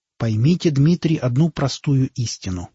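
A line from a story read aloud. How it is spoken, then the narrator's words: Plain. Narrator (Russian): сказал Эйнштейн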